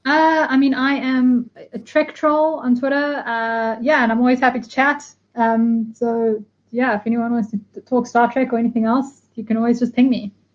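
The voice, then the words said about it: Speaks with a noticeable accent. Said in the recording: “if anyone's having trouble with the accent, because it does sound a little bit like Trek Troll”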